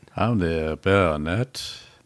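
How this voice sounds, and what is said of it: Mock aristocratic English accent, DJ-like. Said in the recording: “aristocratic English accent? ... That sounds like you're a DJ on a 3 a.m.”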